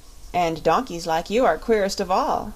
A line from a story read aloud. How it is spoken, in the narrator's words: laughed Polychrome